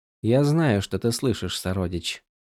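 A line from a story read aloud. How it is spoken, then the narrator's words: Quiet. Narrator (Russian): тихо сказала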